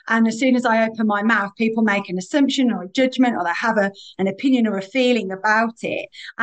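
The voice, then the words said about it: Birmingham English accent, posher register. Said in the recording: “Birmingham and my accent, like I can't change my accent ... I'm probably using my poshest version of it today”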